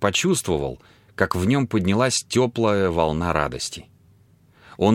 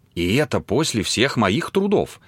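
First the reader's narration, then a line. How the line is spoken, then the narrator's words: Exclaimed. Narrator (Russian): воскликнула она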